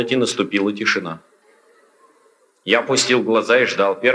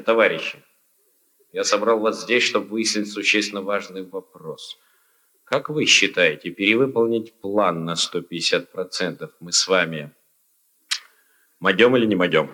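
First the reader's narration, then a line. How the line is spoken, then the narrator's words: Hesitant. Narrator (Russian): неуверенно начал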